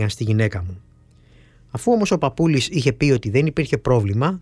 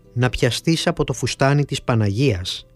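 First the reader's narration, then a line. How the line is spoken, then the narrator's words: Plain. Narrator (Greek): της απάντησε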